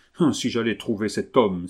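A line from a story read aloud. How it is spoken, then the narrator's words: Exclaiming. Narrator (French): s'écria Justin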